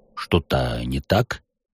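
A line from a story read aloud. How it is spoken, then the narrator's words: Muttered. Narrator (Russian): пробормотал маг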